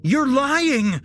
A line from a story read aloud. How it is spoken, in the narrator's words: Jesse shouted